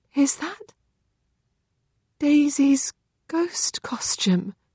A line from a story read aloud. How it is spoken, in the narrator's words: She whispered